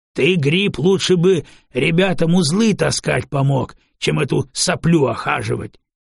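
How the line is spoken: Barked, rough raider. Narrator (Russian): кто-то из налетчиков рявкнул

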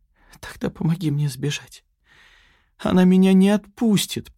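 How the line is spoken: Whimpering plea. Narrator (Russian): проскулила Яна

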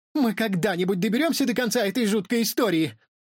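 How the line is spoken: Exclaimed. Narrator (Russian): воскликнула Стелла

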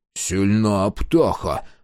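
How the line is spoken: Male grumble. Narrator (Russian): проворчал он

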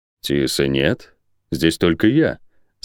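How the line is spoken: Calm, unirritated. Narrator (Russian): спокойно, без тени раздражения ответил Лион

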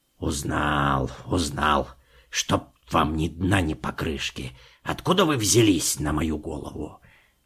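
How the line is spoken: Grumbling. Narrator (Russian): ворчал дядя Кузя

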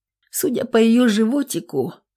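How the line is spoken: Dejected voice. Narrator (Russian): упавшим голосом говорит Женька

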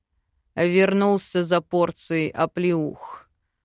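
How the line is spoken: Sudden angry growl. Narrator (Russian): рыкнул Велитар, вмиг разозлившись

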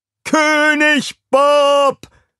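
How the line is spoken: Crowd shouting. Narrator (German): rief die Menge

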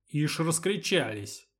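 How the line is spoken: Displeased grumble. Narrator (Russian): недовольно пробурчал Федор

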